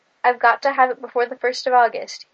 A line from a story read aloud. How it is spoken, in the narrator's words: he said